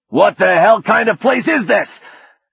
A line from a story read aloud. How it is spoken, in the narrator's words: he shouted